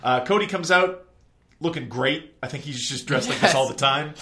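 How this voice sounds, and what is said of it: Usual voice. Nothing is said of it.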